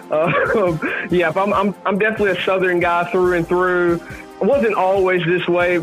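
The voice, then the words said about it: Southern Tennessee country accent. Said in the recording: “that's not a Boston accent... It's more of a Tennessee accent... I kind of caught that country accent.”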